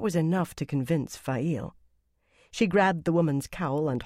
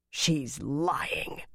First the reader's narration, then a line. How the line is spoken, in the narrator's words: Megdin growled